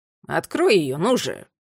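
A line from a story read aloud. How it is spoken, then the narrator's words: Grumbling. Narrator (Russian): проворчал Аттила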